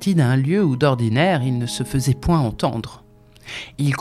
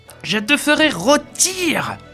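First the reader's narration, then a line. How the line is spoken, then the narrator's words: Roaring. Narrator (French): rugissait-il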